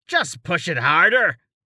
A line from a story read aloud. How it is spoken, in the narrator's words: Carten yelled down